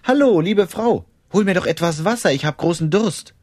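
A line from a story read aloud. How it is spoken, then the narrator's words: Calling out. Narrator (German): Elia rief sie an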